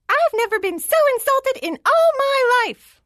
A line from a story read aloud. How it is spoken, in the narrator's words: he screamed in a voice as thin as a needle